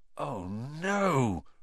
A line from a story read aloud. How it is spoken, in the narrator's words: Ron gasped